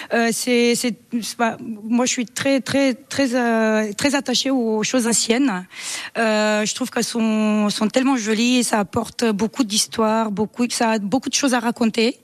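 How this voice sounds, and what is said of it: Slight Romanian accent in French. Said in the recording (French): “vous avez un petit accent ... Moi je suis roumaine d'origine.”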